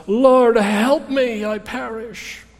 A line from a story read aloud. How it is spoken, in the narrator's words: he cries out